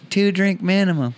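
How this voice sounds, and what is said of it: Imitates another person's voice. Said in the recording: “good Ryan Swinehart impression”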